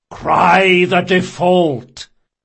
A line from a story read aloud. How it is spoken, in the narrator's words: One of the demons, a man with a booming voice, shouted